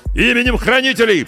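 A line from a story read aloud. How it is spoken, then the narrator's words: Distant shout. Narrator (Russian): прокричали по ту сторону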